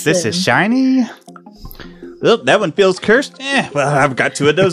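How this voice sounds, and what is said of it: Imitates a character's voice. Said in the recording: “my darling impression”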